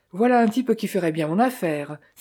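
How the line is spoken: Exclamation. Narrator (French): s'écria-t-il

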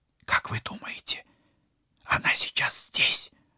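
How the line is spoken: Whispered question. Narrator (Russian): шепотом спросила Полина

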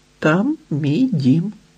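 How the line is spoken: Plain. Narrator (Ukrainian): відповів тарган

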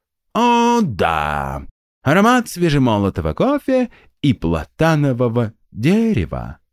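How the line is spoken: Purred. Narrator (Russian): промурлыкал Эстир

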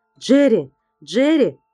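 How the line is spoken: Shouting into phone. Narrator (Russian): кричал в трубку Сет

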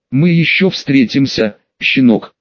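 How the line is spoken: Menacing hiss. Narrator (Russian): многообещающе прошипел представитель напоследок

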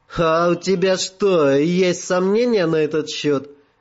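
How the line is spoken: Forced laugh. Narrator (Russian): Принужденно рассмеялась она

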